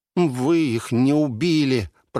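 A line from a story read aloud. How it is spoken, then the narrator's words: Dry-mouthed nervous grumble. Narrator (Russian): проворчал Волда, пересохшим от волнения, языком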